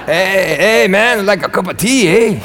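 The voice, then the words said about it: Put-on Hispanic accent. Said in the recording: “I turn every accent into like Hispanic accent.”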